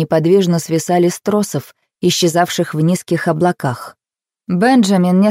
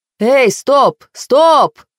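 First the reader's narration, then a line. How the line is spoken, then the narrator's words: Yelled. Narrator (Russian): Заорал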